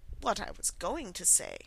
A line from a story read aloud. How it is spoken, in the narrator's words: said the Dodo, in an offended tone